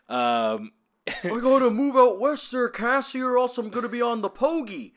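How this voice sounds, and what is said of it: Cartoon big-guy voice, Canadian accent. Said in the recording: “distinct Canadian accent ... Canadian Patrick ... Patrick Starr-like affectation where he's like, I'm a big guy ... rounding off the O's like that ... That's pretty good.”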